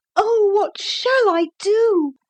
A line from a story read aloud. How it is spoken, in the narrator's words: cried Lucy, wringing her hands